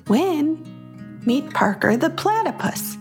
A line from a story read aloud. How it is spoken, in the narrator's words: her mom said calmly